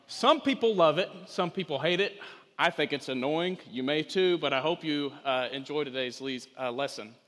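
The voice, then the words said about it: Thick rural northeast Texas accent. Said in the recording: “this very rural, thick, northeast Texan accent”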